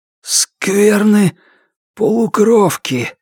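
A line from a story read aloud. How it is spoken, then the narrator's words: Strained, forced out. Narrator (Russian): смог выдавить он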